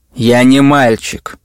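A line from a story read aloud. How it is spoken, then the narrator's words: Angry. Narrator (Russian): сердился я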